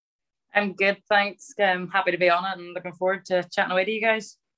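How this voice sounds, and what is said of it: Northern Irish Ballymena accent twang. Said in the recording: “I've got a twang. I wouldn't say I have a full Ballymena accent, but there's definitely a twang to it... a broad Northern Ireland accent”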